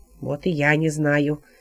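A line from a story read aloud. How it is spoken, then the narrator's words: Grumbling. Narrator (Russian): ворчал святой Сульпиций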